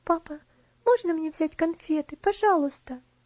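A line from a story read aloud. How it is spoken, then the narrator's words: Timid question. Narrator (Russian): она робко спросила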